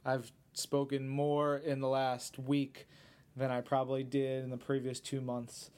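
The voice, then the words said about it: Slightly hoarse voice. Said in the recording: “As you can tell by my voice, it's a little hoarse.”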